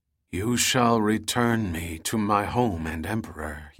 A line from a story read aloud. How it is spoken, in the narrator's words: he muttered wistfully to the wooden mass